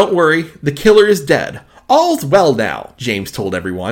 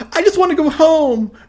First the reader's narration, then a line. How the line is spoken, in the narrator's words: May whined